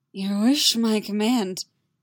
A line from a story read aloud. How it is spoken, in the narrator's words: he rasps